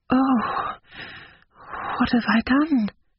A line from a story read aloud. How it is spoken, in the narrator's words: She murmured